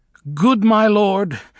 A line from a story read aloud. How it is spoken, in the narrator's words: she said in a piercing, pretentious voice